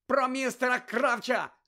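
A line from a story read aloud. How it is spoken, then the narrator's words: Shouted. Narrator (Ukrainian): закричав Гаррі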